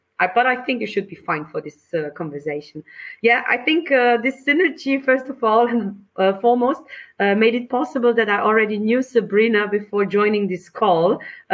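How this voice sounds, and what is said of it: Austrian accent, slightly hoarse voice. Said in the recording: “With the charming Austrian accent ... It's my charming Austrian accent with a bit of bronchitis in the back ... please excuse my voice”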